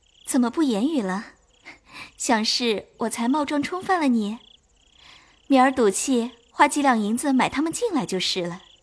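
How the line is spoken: Laughing. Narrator (Chinese): 袭人笑道

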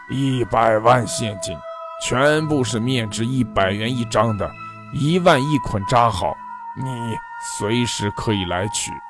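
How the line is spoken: Hoarse rough male voice. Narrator (Chinese): 另一个沙哑粗犷的男人声音传来

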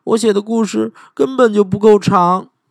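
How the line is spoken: Aggrieved cry. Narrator (Chinese): 小兔子委屈的叫起来

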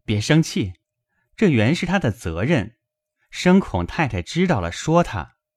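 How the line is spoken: Laughing. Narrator (Chinese): 宝玉笑道

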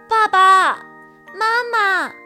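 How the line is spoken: Shouting. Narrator (Chinese): 卡门叫道

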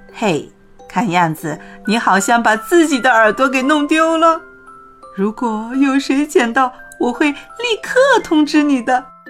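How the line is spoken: Man, sly mocking tone. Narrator (Chinese): 坐在写字台后面的男人一脸坏笑地对没有耳朵的兔子说

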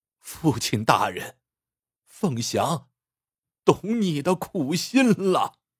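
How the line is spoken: Sobbing bitterly. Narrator (Chinese): 林凤祥痛哭道

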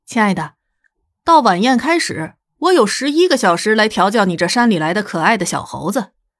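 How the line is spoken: Smiling. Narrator (Chinese): 微笑道

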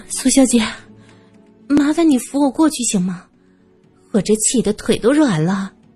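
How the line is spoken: Sighing. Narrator (Chinese): 萧琴叹了口气，说

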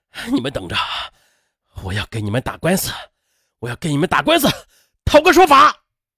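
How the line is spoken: Enraged, through gritted teeth. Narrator (Chinese): 激怒了何哥，他咬着牙对秋叶飘零以及瑶瑶说

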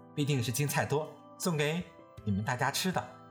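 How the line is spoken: Laughing. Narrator (Chinese): 宝玉笑道

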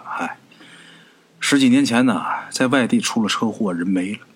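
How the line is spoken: Sighing. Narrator (Chinese): 李元成叹了口气说

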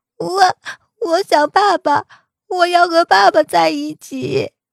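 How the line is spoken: Unrestrained sobbing complaint. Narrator (Chinese): 似乎找到了倚仗，小白肆无忌惮的哭诉着

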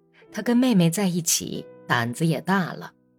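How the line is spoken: Boy speaking low. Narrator (Chinese): 男孩子低声说

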